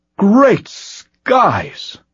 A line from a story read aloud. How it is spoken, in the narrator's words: Farz cried